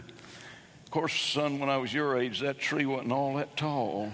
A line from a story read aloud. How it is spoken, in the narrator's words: Sam Snead is reported to have muttered